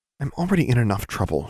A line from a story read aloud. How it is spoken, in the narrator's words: she said quietly